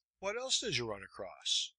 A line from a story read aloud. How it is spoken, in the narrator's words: asked